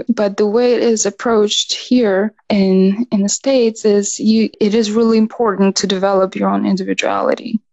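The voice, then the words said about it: Eastern European accent. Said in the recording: “my accent would either be not thick enough to play fully, you know, Eastern European ... I'm glad you didn't lose your accent”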